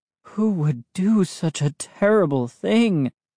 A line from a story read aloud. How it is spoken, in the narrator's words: He sighed